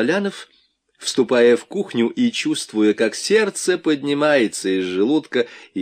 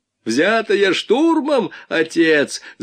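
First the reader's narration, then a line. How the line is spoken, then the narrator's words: Yelled. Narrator (Russian): заорал Вайнгартен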